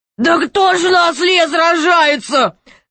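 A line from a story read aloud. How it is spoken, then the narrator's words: Laughing loudly. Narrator (Russian): захохотал король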